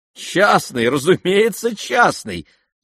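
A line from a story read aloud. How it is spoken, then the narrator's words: Laughing together. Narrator (Russian): засмеялись Александра и Аделаида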